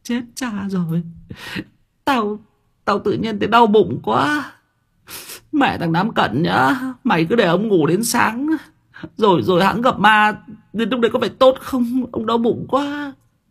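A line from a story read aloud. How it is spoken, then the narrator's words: Whimpering, near tears. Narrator (Vietnamese): Thằng Quân mếu máo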